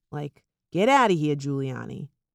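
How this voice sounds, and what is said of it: Poor attempt at New York accent. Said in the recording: “I had to do that New York accent ... That was terrible. I don't really think I know how to do a New York accent.”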